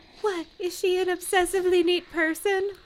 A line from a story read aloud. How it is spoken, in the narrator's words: Anna asked, laughing a light musical laugh